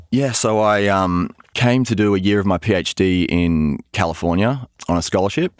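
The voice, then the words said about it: Australian accent. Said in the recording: “I can tell by your accent that you're not from here ... you told me you were Australian”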